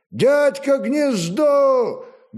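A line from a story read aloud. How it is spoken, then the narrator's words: Loud call. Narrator (Russian): громко кликнул Олег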